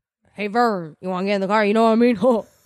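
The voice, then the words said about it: Impression of Ernest. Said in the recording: “your Ernest impression”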